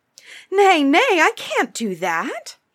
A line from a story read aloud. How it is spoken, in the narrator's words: Jack cried in alarm